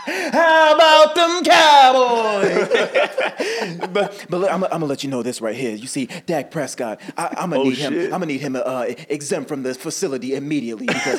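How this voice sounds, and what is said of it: Imitates another person's voice. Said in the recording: “My favorite impression would probably be Stephen A. Smith.”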